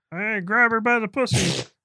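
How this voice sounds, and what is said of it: Imitates another person's voice. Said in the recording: “I've been working on my Trump impression”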